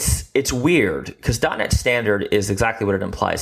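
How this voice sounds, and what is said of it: Usual voice. Nothing is said of it.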